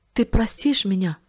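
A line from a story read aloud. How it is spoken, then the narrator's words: Plain. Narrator (Russian): спросил Гоша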